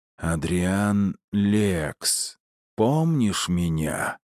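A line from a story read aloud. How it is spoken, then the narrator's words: Hissing voice. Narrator (Russian): произнес шипящим голосом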